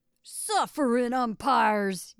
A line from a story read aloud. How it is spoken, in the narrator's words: yelled Spears